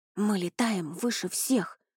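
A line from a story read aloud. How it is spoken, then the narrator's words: Whisper. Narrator (Russian): прошептал Рони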